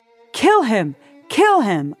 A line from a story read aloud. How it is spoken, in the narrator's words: a man shouted